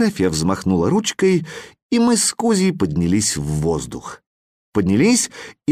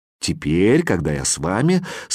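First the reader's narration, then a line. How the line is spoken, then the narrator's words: Calm. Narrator (Russian): спокойно сказал учебник географии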